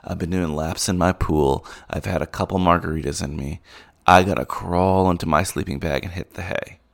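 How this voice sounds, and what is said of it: Tired, exhausted-sounding voice. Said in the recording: “You can tell from my voice that I'm pretty exhausted.”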